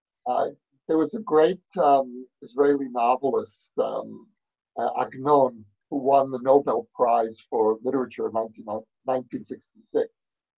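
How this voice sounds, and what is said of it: New York accent. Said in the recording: “as you can hear from my accent, I grew up in New York”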